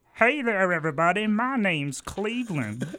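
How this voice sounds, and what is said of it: Cartoon character voice impression. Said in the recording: “do a Cleveland impression.”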